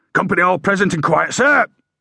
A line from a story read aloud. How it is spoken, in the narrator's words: shouted